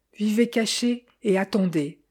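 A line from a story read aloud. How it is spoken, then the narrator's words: Plain. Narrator (French): m'avait dit Sophie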